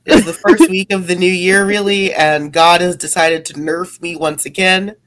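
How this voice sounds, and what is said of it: Voice sounds sick. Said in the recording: “you sound super sick”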